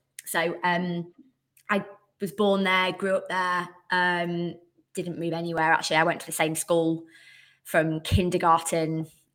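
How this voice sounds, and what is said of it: Northern English accent. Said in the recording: “you can probably tell by the accent, I'm not from the South ... Bradford”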